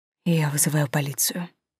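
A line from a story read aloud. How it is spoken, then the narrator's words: Whisper. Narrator (Russian): прошептал Костя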